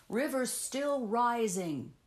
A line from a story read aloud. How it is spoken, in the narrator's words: he cried